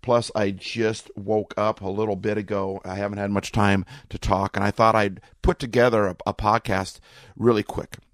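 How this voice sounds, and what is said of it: Slightly raw voice. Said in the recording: “my voice is a little bit raw”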